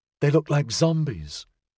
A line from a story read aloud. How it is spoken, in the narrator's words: she said quietly